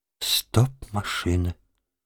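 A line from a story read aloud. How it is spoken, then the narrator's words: Quiet. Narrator (Russian): тихо сказала она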